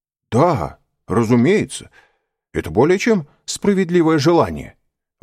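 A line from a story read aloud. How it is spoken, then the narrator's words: Exclaiming. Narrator (Russian): воскликнул господин де Бувиль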